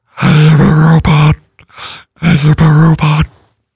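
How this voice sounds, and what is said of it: Robotic voice spoken on inhaled breath. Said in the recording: “do the robot voice. ... you breathe in backwards and talk”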